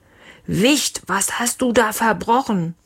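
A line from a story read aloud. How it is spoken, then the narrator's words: Father bellowing. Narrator (German): Leons Papa brüllte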